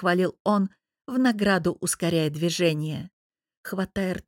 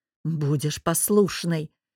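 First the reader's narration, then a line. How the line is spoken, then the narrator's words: Hoarse restrained whisper. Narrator (Russian): хрипло прошептал муж, явно уже едва сдерживаясь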